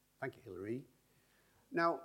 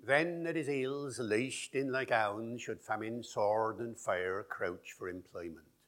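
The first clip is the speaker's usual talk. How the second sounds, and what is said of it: Old English accent with pronounced Rs. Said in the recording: “that accent, you all recognize it ... some of those original features of English that have now gone from received pronunciation ... still very strongly present in regional dialects, regional accents ... you hear the R after the vowel”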